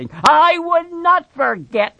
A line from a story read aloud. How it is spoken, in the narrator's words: Lenny said loudly